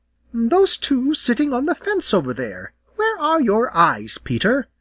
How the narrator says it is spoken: replied Jenny rather sharply

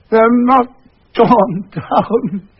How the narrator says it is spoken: he cried

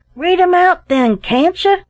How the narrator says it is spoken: cried another

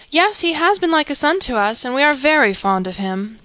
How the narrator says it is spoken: replied Mrs

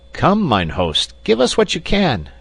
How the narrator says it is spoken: cried Peter, rather pompously

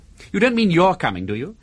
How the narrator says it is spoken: Margaret laughed in the way Dixon had named to himself the tinkle of tiny silver bells

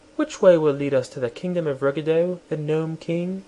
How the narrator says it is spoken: she said in her sweet, gentle voice

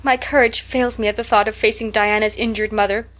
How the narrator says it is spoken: sighed Anne

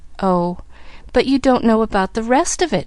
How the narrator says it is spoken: reminded, eagerly

